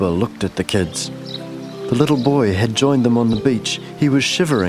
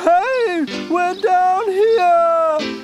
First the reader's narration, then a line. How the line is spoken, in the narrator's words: Jasper howled